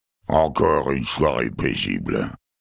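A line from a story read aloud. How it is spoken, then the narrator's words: Grumble. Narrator (French): grommela-t-il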